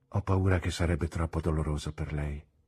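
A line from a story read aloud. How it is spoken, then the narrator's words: Murmured. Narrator (Italian): mormorai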